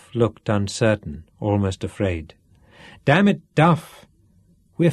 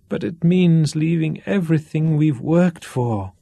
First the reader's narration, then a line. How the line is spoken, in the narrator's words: Duff groaned